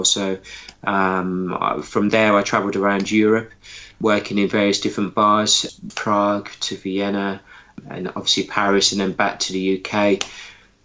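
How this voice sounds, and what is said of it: Hybrid Birmingham English accent. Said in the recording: “my home town of Birmingham, if you can't tell by my accent, which is a bit of a hybrid accent these days”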